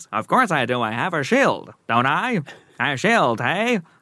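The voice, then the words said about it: 1940s New York accent. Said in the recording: “What accent does he have? ... He's from 1940s New York. ... They all speak like that.”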